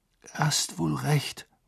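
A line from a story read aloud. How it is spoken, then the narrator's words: Muttered. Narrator (German): murmelte Harry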